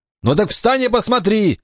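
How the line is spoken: Barked. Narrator (Russian): рявкнул Саймон

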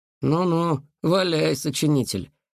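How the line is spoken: Skeptical snort. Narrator (Russian): хмыкнул Глеб, не веривший ни в одну школьную легенду

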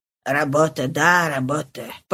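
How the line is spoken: Muttered. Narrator (Russian): пробормотал он наконец

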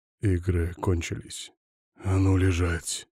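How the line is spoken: Growl against lips. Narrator (Russian): прорычал в ее губы

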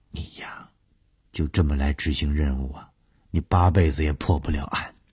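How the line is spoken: Half-joking. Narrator (Chinese): 小梅 半开玩笑地说

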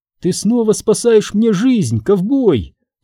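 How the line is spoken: Cooing. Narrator (Russian): проворковала она

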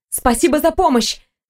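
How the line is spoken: Young woman interrupting. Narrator (Russian): не дала ей договорить девушка

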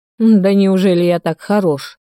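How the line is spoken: Growled. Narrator (Russian): рыкнул Тихон

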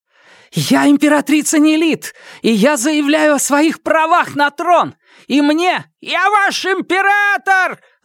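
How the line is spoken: Yelling from below. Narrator (Russian): завопил Фаразар откуда-то снизу

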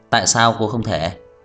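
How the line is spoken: Smiling. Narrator (Vietnamese): Trang Hạo Nhiên mỉm cười

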